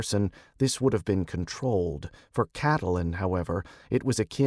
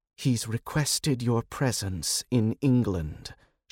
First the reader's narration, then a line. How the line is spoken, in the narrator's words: said, her voice tight